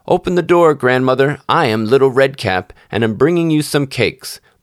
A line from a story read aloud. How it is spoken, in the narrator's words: the wolf knocked and cried